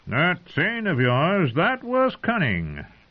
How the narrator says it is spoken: Mace Tyrell had said in a jolly tone

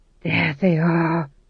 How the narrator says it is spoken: he breathed

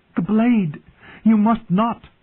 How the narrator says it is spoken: she begged him

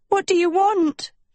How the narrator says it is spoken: she screamed

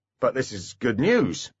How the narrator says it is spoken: said Foley irritably

